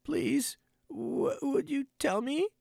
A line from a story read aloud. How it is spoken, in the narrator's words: said Alice a little timidly, for she was not quite sure whether it was good manners for her to speak first